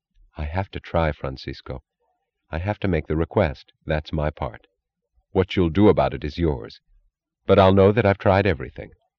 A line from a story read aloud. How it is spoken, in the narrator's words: She said quietly